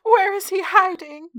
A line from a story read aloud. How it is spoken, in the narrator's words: Mary cried